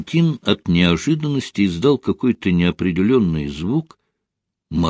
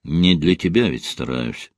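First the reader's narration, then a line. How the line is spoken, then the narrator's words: Dry explanation. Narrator (Russian): сухо пояснил Ренат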